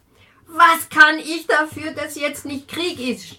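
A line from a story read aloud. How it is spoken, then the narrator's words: Sudden scream. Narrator (German): schrie plötzlich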